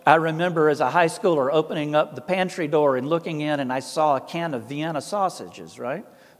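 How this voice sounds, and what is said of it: Thick Southern Appalachian accent. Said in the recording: “a poor white boy in the South with this accent ... I didn't realize Papa's accent was that thick ... My native dialect was a very strong version of Appalachian”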